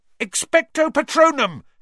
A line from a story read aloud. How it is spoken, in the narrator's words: Harry yelled